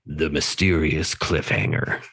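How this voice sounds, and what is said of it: Dramatic movie-trailer voice. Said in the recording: “I'll say it in my movie voice,”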